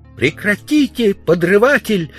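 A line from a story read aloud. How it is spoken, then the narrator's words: Shouting woman. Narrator (Russian): закричала она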